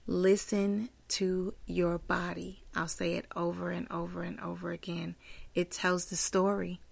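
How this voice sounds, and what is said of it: Hoarse voice. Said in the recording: “Forgive my voice. I'm so hoarse”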